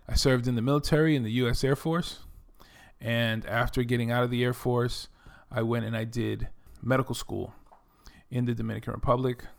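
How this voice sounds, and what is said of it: New York accent. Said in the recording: “You can probably tell that I'm from New York from my accent. I currently live in Texas, and sometimes that accent, you know, kind of cuts into my New York accent.”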